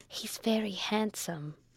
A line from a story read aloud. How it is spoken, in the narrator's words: whispered Rebecca to Amelia, rather loud